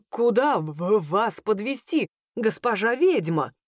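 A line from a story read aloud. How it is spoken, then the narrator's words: Frightened stammering question. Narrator (Russian): заикаясь, спросил возница, у которого, кажется, все краски с лица пропали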